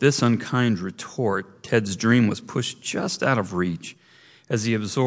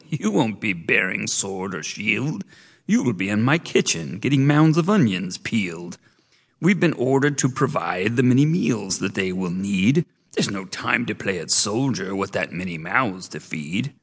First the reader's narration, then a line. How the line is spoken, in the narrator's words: the chief cook cackled